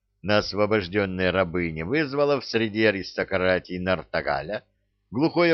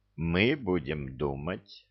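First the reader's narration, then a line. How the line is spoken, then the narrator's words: King speaking quietly. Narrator (Russian): негромко сказал его величество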